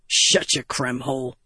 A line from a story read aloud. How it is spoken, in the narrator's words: Gaz grumbled